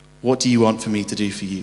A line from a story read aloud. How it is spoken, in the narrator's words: asked